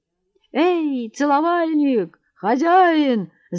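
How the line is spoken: Shouted. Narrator (Russian): закричал Матвей Трофимович рыжему Борису

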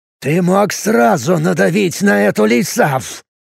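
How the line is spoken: Growled. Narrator (Russian): прорычал он

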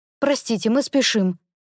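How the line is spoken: Sharp interruption. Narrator (Russian): Довольно резко перебиваю

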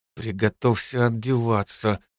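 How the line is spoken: Whisper. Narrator (Russian): шепнул

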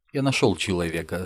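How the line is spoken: Calm. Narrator (Russian): спокойно сказал Назгул

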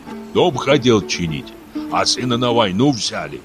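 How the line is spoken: Grumbled. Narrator (Russian): пробурчал Шио

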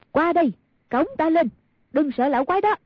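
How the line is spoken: Calling out. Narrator (Vietnamese): kêu lên

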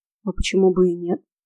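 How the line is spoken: Calm retort. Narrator (Russian): Спокойно парировал он

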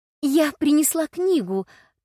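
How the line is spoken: Quick babbling. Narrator (Russian): тут же пролепетала Элла

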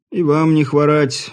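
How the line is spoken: Greeting. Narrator (Russian): поздоровался кабачик

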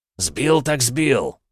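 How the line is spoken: Growled. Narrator (Russian): рыкнул император

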